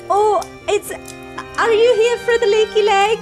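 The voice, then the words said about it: Put-on Welsh accent. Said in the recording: “I've gone for a Welsh accent.”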